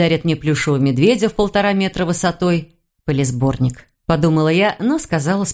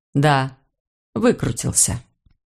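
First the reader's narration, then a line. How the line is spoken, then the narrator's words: Gloomy reply. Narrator (Russian): Мрачно ответил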